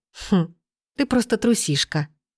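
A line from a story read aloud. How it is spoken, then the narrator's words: Soft, smiling. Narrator (Russian): мягко улыбнулась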